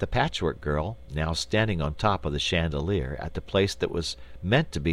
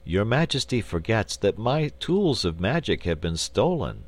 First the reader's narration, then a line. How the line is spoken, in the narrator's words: said the wizard sadly